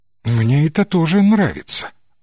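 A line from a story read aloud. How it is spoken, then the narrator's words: Affectionate tone. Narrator (Russian): ласковым тоном ответила Кэт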